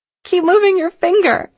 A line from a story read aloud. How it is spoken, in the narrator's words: she exclaimed